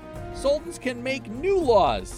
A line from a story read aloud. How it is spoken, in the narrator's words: he said happily